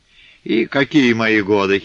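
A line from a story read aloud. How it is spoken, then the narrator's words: Muffled giggle. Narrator (Russian): хихикнула Головешиха, прикрыв рот рукой в вязаной варежке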